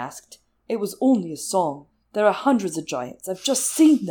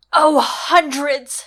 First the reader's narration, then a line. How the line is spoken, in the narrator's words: she said furiously